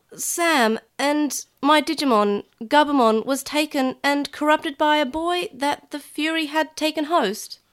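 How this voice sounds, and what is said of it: Weak put-on New Zealand accent. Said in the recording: “Why am I giving a New Zealand accent? ... I don't know why I'm getting a New Zealand accent. I'm not doing very well. I can't do accents.”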